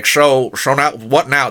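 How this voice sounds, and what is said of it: Imitates another person's voice, poorly. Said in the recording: “That was a terrible impression.”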